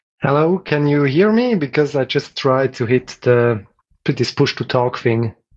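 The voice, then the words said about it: Mild Swiss accent. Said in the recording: “that's a lovely accent... Typical Swiss, I guess... Actually, milder than some.”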